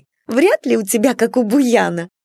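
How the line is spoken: Giggling. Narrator (Russian): хихикала Нюраня

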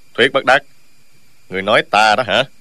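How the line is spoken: Cold abrupt interruption. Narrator (Vietnamese): Dương Tiêu đột nhiên lạnh lùng ngắt lời

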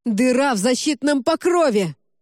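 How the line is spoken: Yelled. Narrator (Russian): заорал

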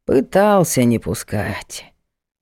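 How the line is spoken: Sighed. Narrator (Russian): вздохнул Егор

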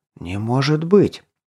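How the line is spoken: Admiring breathless exhale. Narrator (Russian): с восхищением выдохнул Горд

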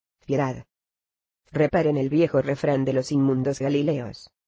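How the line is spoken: Desperate, dry voice. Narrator (Spanish): desesperado, respondió con voz seca

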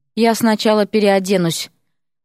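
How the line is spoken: Hoarse wheeze. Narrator (Russian): прохрипел

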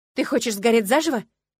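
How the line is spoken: Shouting. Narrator (Russian): крикнула я

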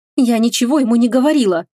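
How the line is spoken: Sobbing. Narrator (Russian): всхлипнула

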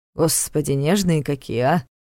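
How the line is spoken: Theatrical grumbling. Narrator (Russian): Театрально проворчал он

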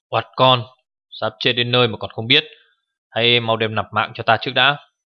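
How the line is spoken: Thunderous furious yell. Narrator (Vietnamese): đôi mắt ông già áo xám đã lộ hung quang, tiếng hét vang như sấm rền

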